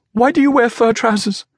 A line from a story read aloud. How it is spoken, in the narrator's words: He laughed, and still laughing